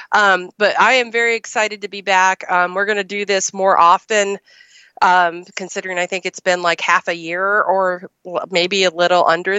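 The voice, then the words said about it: Sick, weak-sounding voice. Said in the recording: “Although I sound it, and I'm recovering from plague. ... if I sound like a dead, dying well creature ... I am getting over the horrible plague”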